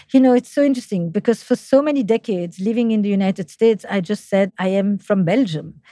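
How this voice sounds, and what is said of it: French accent speaking English. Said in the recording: “my French accent in English”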